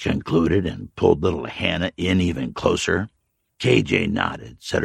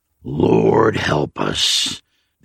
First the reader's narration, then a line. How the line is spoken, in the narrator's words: the old man muttered